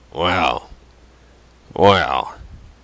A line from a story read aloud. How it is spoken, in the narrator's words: said gruffly